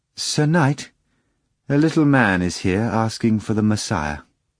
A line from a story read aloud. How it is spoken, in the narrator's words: the maid said hesitantly, she announced